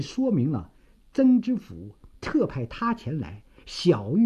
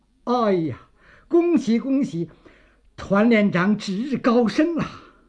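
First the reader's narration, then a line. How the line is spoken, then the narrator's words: Beaming greeting. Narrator (Chinese): 赵京城笑容满面，说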